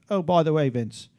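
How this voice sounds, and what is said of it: Imitates another person's voice, British-ish accent. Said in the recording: “Is that an Australian accent? ... It's something. ... Very British. ... I can kind of hear Ruth in that.”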